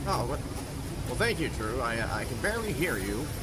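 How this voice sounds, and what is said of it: Strange put-on accent. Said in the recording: “the strange accent man ... Strange accent man”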